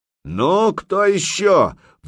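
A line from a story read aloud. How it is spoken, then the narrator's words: Roaring. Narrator (Russian): взревел Илья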